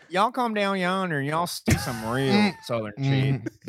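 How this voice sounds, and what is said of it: Southern twang. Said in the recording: “his voice got a little southern twang to it”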